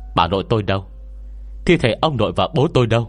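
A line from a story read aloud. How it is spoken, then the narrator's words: Cold question. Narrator (Vietnamese): lạnh lùng hỏi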